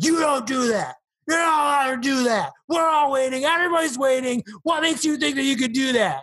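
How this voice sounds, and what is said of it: Good impression of an angry man. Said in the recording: “that was a really good impression.”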